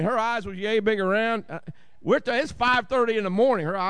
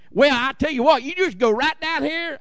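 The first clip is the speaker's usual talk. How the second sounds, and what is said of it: Heavy Southern country accent imitation. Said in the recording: “She was so country, so had such an accent.”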